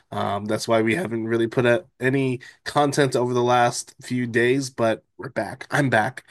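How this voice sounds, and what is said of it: Congested voice from a cold. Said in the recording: “I'm trying to get over a cold, if you can hear it in my voice.”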